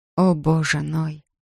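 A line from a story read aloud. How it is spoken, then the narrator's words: Whispering. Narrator (Russian): прошептала она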